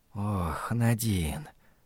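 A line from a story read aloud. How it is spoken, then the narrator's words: Whisper. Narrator (Russian): прошептал он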